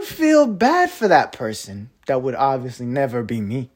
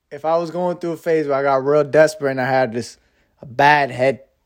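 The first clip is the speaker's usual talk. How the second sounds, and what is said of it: Speaking in a put-on accent. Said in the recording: “What was with the accent though?”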